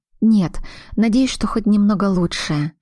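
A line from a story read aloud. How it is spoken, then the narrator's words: Whisper. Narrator (Russian): шепнула Аглая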